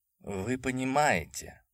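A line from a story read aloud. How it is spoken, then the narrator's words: Gloomy. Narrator (Russian): мрачно заговорил Айзек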